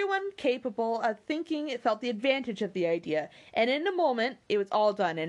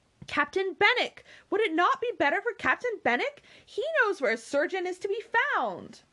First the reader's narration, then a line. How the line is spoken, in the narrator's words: Anne eagerly suggested